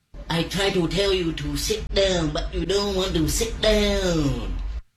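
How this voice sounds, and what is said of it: Put-on Vietnamese accent. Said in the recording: “That's Vietnamese.”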